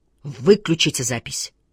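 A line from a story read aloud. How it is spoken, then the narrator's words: Very loud, decisive. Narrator (Russian): очень громким и решительным голосом сказал судья Иверсон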